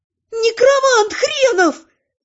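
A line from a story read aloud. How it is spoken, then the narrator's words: Furious yelling. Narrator (Russian): заорала я так, что вся троица просто шарахнулась от меня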